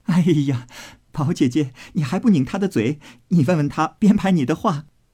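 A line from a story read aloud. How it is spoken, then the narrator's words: Laughing nonstop. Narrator (Chinese): 探春哎了一声，笑个不住，说道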